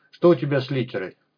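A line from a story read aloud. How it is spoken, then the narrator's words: Surprised laugh. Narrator (Russian): Уотсон рассмеялся от удивления и неожиданности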